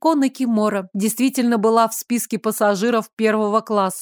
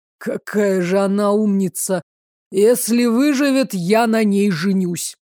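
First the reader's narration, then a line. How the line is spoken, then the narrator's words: Admiring exhale. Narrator (Russian): Восхищенно выдохнул Рико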